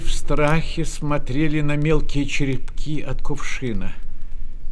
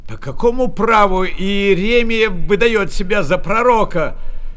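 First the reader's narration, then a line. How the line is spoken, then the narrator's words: Shouting from a crowd. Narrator (Russian): кричали в толпе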